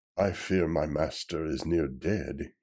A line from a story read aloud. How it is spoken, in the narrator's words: he blows so wearily